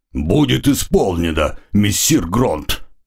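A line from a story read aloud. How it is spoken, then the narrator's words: Deep bass voice. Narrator (Russian): густым басом ответил маг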